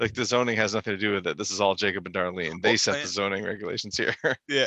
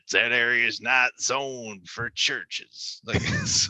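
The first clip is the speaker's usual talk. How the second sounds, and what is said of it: Imitates another person's voice. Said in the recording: “that's a great jacob impression”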